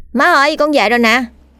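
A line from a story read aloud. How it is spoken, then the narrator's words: Loud calling. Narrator (Vietnamese): thằng Đen đã lớn tiếng gọi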